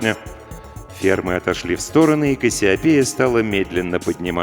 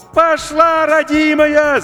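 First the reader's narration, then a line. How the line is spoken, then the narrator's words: Deafening shout over radio. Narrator (Russian): закричал Максим, оглушая радиоканал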